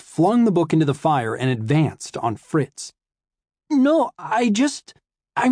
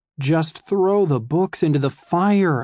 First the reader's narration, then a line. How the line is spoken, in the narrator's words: I begged Fritz silently